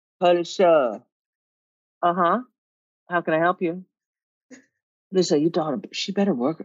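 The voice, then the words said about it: Put-on unidentifiable accent. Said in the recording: “I don't even know what fucking accent this is”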